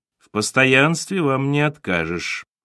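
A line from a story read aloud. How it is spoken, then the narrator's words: Dry drawl, manager. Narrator (Russian): сухо протянул управляющий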